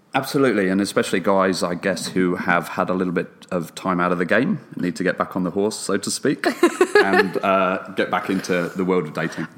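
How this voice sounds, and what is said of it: Australian accent. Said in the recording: “you have a lovely Australian accent”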